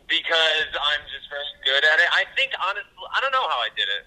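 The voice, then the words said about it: Speaks with a noticeable accent. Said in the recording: “Your little accent. ... how did you hide your accent”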